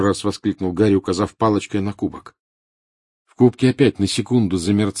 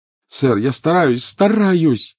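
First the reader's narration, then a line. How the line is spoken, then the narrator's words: Desperate cry. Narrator (Russian): отчаянно вскрикнул Гарри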